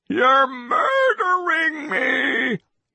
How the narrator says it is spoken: He screamed

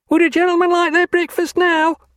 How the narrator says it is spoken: asked a chambermaid, bawling through the door

